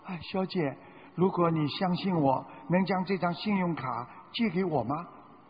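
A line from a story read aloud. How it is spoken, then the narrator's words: Embarrassed, quiet. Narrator (Chinese): 他有点难为情，小声地说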